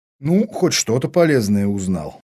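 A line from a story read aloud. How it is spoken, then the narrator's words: Marine's inner snort. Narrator (Russian): мысленно хмыкнул морской пехотинец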